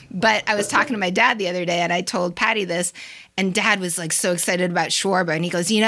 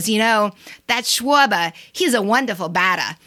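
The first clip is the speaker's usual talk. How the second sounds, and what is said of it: Imitated thick Boston accent. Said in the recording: “has a serious Boston accent”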